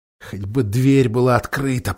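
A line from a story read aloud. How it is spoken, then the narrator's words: Whisper. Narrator (Russian): прошептал Юстас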